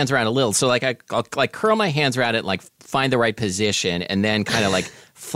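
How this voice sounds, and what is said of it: Usual voice. Nothing is said of it.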